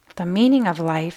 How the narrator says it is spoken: said quietly

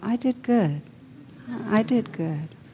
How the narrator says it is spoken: Dazed, the mugger wandered off, saying softly to himself

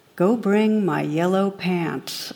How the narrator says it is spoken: the captain calmly replies

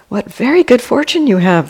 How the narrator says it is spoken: the villagers exclaimed

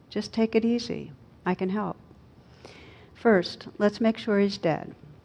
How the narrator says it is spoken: The operator, in a calm, soothing voice, says

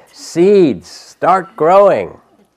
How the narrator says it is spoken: Toad shouted

